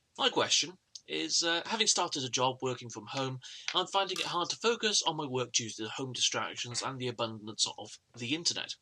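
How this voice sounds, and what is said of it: A delightful accent. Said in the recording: “A delightful accent.”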